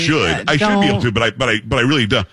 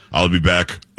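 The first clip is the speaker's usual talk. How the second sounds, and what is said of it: Bad Arnold Schwarzenegger impression. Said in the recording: “my Arnold impersonation ... Barack Obama doing Arnold Schwarzenegger ... That's awful ... It's so bad”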